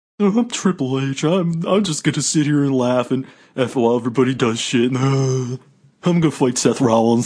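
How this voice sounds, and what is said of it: Triple H impression, not nasal enough. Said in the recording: “a good impression, you got to admit. ... It has to be a little more nasally.”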